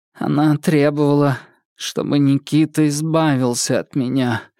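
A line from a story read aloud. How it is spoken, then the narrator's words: Hollow, muffled voice. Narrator (Russian): глухо сказал он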